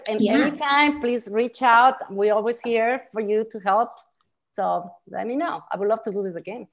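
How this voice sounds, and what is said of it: Speaks with a noticeable accent. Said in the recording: “They don't have the accent that I do”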